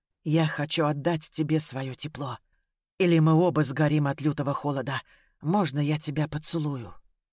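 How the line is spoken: Whisper. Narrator (Russian): Незваный гость прошептал

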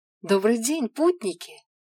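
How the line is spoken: Joyful young woman greeting. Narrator (Russian): радостно приветствовала девушка

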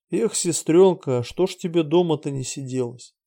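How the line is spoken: Sigh. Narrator (Russian): Всеволод вздохнул

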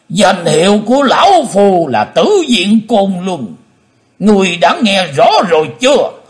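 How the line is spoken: Hateful loud roar. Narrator (Vietnamese): Lão nhân mặt đỏ hận thù gầm to lên

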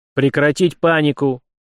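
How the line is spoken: Sudden bark. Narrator (Russian): неожиданно, прежде всего для самого себя, рявкнул на него Март

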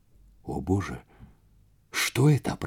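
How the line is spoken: Whisper. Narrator (Russian): прошептал Вейзек

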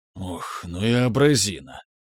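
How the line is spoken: Displeased grumble under breath. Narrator (Russian): буркнул себе под нос Сергей, все еще недовольный

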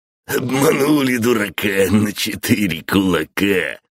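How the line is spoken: Old man laughing loudly. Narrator (Russian): захохотал дед

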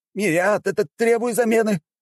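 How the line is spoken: Uncertain shout, then crowd roaring. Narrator (Russian): неуверенно прокричал один из доходяг, а остальные тут же подхватили и заорали мои слова во всю глотку

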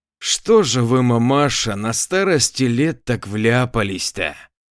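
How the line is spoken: Spiteful question. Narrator (Russian): злобно поинтересовался он

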